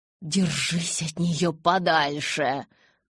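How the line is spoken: Hiss. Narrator (Russian): зашипела я

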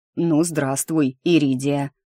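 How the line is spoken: Cough, then deep voice. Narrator (Russian): кашлянув пробасил кто-то у меня за спиной

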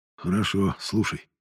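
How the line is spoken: Sigh. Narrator (Russian): вздохнул тот

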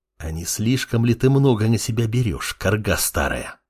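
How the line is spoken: Young man hissing furiously. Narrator (Russian): Бешено прошипел парень

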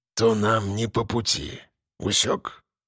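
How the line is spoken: Very quiet, barely audible. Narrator (Russian): тихо, еле слышно добавил

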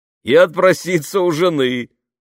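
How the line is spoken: Laughing. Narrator (Russian): засмеялся летчик

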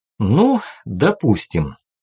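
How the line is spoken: Calm, scribe. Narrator (Russian): спокойно начал писец

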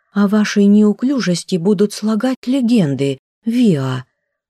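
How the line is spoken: Reproachful exclamation. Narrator (Russian): укоризненно воскликнула мисс Шонар

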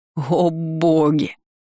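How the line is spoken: Loud laughter. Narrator (Russian): снова расхохотался мой кавалер

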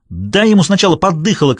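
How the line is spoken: Shouted. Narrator (Russian): крикнула Аннабелл

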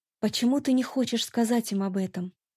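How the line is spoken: Quiet question. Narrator (Russian): Я тихо спросила

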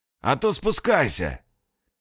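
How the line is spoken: Hoarse distant voice. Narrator (Russian): Донесся его хриплый голос

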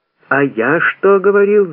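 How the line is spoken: Yelling. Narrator (Russian): завопил третий

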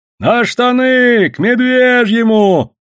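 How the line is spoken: Shouting from above. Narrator (Russian): закричали наверху

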